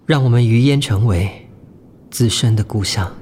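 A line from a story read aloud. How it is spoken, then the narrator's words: Soft. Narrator (Chinese): 我轻声说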